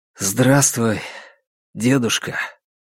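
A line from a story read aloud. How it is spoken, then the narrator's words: Quiet voice. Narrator (Russian): произнес он тихим голосом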